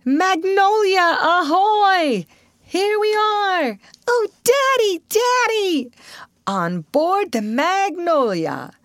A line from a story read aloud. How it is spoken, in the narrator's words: Such joyful shouts